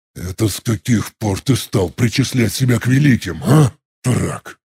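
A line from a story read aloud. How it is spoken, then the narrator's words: Strained hiss. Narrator (Russian): Практически прошипел я, с трудом даже произнося слова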